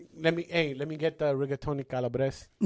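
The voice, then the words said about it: Put-on Italian accent. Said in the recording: “he starts putting on the Italian accent ... he put on the Italian accent ... Now say it again how you said it over there.”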